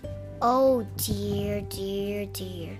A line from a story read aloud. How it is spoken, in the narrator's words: sighed Bear